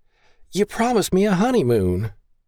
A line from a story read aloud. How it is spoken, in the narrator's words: she whined